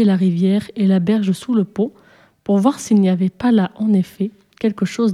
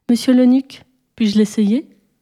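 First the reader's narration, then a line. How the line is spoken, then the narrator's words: Timid question. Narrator (French): demanda timidement Taham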